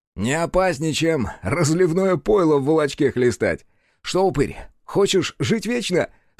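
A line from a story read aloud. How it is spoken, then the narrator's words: Laughing at own joke. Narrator (Russian): Сашка расхохотался собственной шутки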